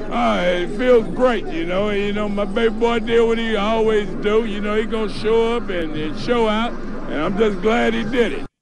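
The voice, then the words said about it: Cajun-sounding accent. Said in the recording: “sounded like a Cajun kind of accent”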